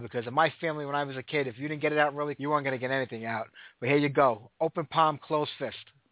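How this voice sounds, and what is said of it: Fast Brooklyn Italian-American accent. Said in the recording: “I just got that Brooklyn, New York, Italian accent, and I talk a million miles an hour”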